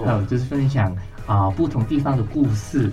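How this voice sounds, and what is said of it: Hong Kong accented Mandarin. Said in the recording (Chinese): “听你的口音不是台湾人... 我是香港人”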